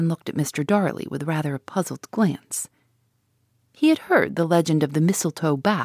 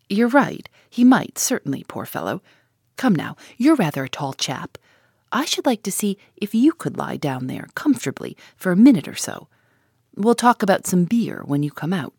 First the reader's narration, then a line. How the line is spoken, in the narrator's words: Gus laughed and said